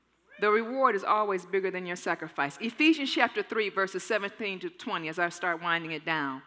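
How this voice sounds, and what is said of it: Usual voice. Nothing is said of it.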